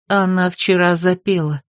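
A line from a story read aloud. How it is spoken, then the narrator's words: Muffled, hollow voice. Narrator (Russian): глухо произнесла отвернувшаяся к окну Бетриса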